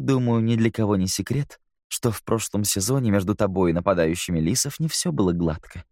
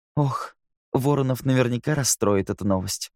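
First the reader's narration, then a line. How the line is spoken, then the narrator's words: Sighed. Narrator (Russian): вздохнула Кэти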